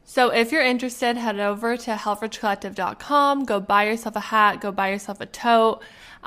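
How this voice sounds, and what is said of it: Sick, congested voice. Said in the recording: “tell by my voice, but I am getting a little sick ... I kind of have the common cold ... my sinuses are just”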